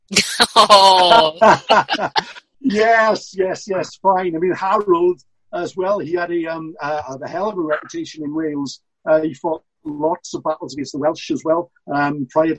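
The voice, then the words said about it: Welsh accent. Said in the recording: “with a Welsh accent”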